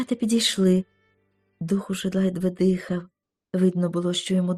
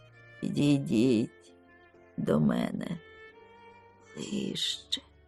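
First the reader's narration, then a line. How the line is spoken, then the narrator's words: Hoarse voice. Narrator (Ukrainian): промовив хриплим голосом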